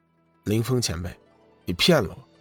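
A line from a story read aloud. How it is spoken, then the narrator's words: Cold, displeased. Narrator (Chinese): 龙宇脸色有些难看，冷声道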